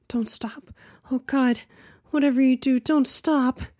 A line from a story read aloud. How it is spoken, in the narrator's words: cried out